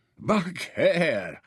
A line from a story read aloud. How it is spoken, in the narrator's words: he applauded